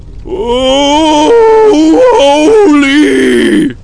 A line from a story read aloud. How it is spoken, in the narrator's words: He screeched